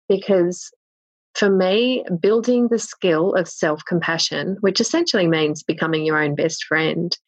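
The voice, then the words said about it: Australian accent. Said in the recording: “it's an Aussie accent.”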